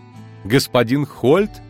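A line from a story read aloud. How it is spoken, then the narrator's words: Loud laughing. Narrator (Russian): захохотала Фервида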